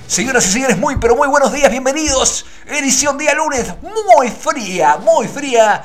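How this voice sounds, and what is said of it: Radio announcer voice. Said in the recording (Spanish): “Voz de locutor, claro. Querido, voz de locutor.”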